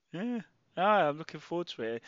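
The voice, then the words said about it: Sarcastic tone. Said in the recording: “You can tell by my sarcastic tone of voice”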